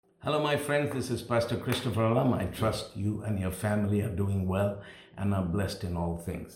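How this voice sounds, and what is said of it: Strong non-American accent. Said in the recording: “I have a very strong accent. I didn't grow up in America. And so I'll carry this accent as long as I live.”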